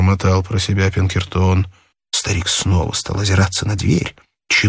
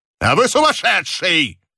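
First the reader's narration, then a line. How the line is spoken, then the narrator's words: Angry shout. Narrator (Russian): гневно закричал сыщик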